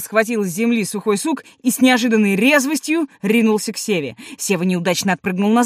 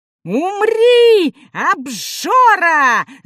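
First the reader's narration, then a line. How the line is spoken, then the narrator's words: Little gnome screaming. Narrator (Russian): завопил гномик Юхан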